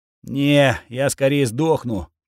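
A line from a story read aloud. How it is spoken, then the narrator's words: Wheezing. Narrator (Russian): просипел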